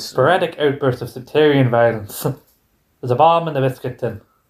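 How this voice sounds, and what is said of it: Put-on Northern Irish accent. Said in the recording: “I can do it Northern Irish ... the only phrase he can do in Northern Irish, and I can do this annoying accent.”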